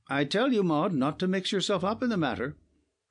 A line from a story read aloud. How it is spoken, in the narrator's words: cried her father, angrily